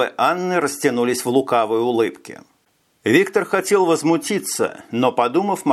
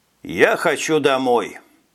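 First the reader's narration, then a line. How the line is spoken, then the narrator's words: Tired. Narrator (Russian): устало сказал новоиспеченный секретный сотрудник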